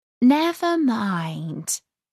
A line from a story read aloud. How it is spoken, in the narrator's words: Alice said in a soothing tone